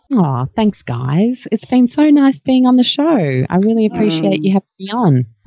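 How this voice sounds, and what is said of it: Smooth, attractive broadcaster-style voice. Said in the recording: “You've got a very sexy voice too ... You've got a beautiful television and radio voice.”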